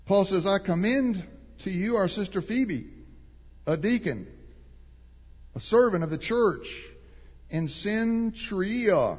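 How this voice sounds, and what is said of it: Texas accent. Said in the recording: “I'm butchering that, but Texas accent.”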